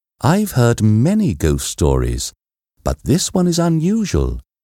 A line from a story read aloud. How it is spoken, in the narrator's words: she said